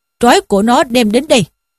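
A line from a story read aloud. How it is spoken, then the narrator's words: Barked command. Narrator (Vietnamese): Trương Đô Giám quát lên rằng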